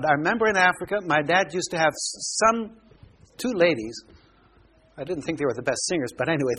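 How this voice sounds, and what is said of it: American accent. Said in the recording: “My accent's American. ... That's why I have the American accent.”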